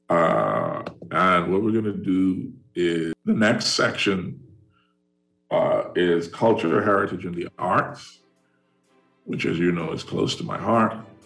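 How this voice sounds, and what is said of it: Strained, failing voice. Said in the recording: “you can hear it. I am about to lose my voice”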